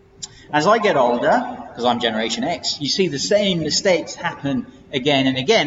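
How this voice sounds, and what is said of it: English accent. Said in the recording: “That doesn't sound so good in an English accent, does it?”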